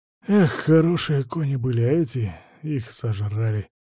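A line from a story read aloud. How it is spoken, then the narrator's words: Sighing. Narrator (Russian): вздохнул Василий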